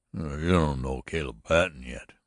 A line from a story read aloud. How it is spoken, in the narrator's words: growled Brocky a bit savagely